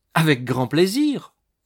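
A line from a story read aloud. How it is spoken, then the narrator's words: Exclamation. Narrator (French): s'écria-t-elle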